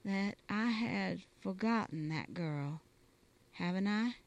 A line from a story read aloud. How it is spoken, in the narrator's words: said Johnny slowly